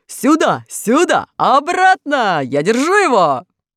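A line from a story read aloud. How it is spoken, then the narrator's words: Shouting. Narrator (Russian): железный дровосек закричал мышам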